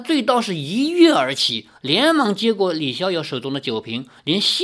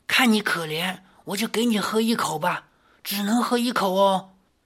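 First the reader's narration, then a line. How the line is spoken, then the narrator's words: Lowered voice. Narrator (Chinese): 李逍遥压低了声音说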